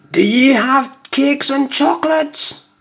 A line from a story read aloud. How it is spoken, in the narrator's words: the highway robber cried